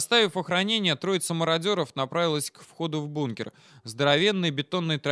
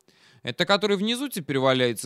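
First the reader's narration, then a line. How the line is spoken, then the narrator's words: Spiteful interjection. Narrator (Russian): злобно вставил Кирюха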